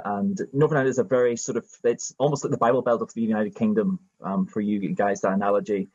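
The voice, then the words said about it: Northern Irish accent. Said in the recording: “My accent is a Northern Irish one.”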